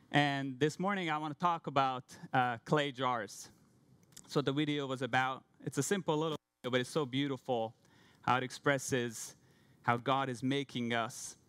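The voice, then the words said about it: Hungarian accent. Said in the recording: “I came from Hungary. That's why I have a weird name and a weird accent.”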